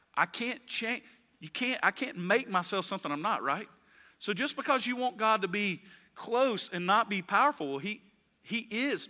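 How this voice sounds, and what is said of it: Slight Southern US accent. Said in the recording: “We know you don't sound like you're from there... Alabama. Got a little southern accent there.”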